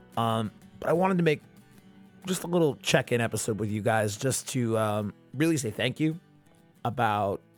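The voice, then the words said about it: Strained, worn-out voice. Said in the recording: “I've been singing at like restaurants for the last fucking 4 or 5 days ... my voice is a little fucked”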